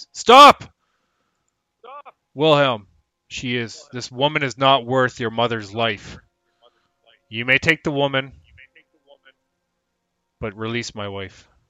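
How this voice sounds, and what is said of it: Loud shouted character line. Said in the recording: “finally shouts over all the shouting match in a loud voice”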